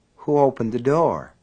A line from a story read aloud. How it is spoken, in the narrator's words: Ace asked in a dry little voice